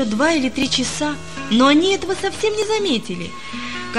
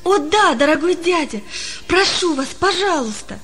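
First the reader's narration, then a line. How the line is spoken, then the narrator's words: Joyful exclamation. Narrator (Russian): воскликнул Палка радостно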